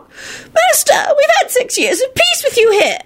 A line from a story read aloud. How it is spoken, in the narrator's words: an elderly witch wailed